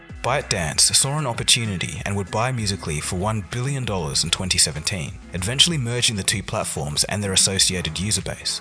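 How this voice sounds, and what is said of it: Thick accent. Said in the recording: “I know his accent is a little thick”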